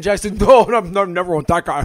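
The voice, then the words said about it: Impression of co-host's voice. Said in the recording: “It's a pretty good impression, by the way. I think I nailed that. ... I don't think he did at all.”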